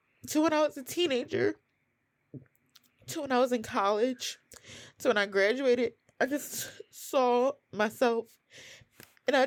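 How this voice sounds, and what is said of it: Emotional, tearful voice. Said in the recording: “sorry, I'm getting emotional”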